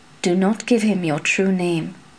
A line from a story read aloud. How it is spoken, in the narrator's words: murmured